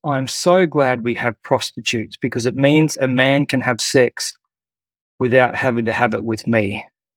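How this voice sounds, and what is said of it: Posh accent. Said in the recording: “in her very posh accent”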